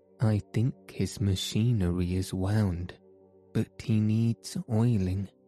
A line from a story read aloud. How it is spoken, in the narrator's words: replied Shaggy